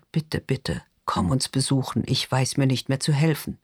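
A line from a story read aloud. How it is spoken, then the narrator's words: Whisper. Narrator (German): flüstert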